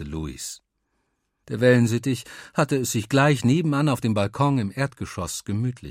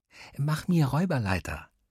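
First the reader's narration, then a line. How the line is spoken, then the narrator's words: Whisper. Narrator (German): flüsterte Luis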